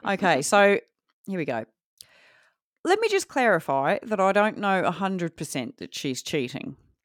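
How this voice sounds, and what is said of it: Put-on Aussie accent sounding Kiwi. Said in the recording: “Australian. ... Let me just get into Aussie. ... my Aussie accent... actually sounds more Kiwi. ... I'm doing Kiwi ... A Kiwi who's lived in Australia for a little while. ... A little bit of a twang, maybe a little British twang every now and then.”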